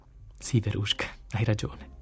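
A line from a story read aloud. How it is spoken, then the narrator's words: Murmured. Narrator (Italian): mormorai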